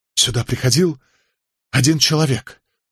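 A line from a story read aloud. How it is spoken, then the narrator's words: Strained, forced words. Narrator (Russian): выдавил он из себя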